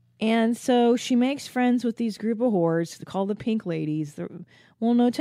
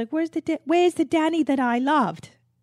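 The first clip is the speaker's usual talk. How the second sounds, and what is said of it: Put-on Australian accent. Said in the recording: “That's my Australian accent.”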